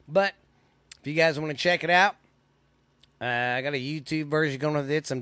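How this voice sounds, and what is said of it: Voice not fully recovered, congested. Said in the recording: “I had a bad sinus infection. It was just my sinuses ... my voice isn't back all the way yet ... Still got this cough a little bit, hacking up that phlegm.”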